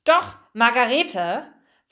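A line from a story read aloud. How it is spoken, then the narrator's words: Very stern. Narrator (German): Frau Fröhlichs Stimme klang sehr streng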